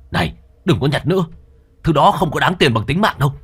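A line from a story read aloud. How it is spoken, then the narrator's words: Loud shout. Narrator (Vietnamese): Anh gầy lớn tiếng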